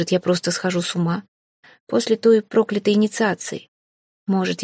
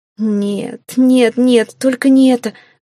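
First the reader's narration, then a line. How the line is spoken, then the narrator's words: Moaning. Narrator (Russian): простонала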